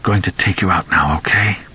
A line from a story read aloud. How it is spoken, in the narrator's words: he whispered